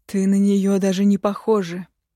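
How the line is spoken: Near growl. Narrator (Russian): Едва ли не рычал он

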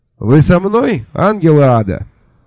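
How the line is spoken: Cheerful, brisk question. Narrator (Russian): бодро осведомился я у мертвецов

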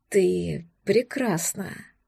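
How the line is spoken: Rapturous breathy exclamation. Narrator (Russian): Восторженно выдохнул он

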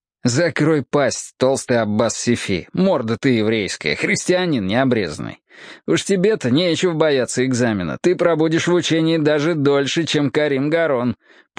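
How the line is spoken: Retort. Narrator (Russian): парировал Фадиль

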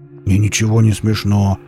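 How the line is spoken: Grumbling mutter. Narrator (Russian): буркнул Велес

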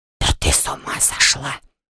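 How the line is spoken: Loud whisper in ear. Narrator (Russian): возвестил громкий шепот мне на ухо

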